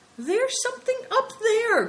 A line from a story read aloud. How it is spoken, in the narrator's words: cried Big Tiger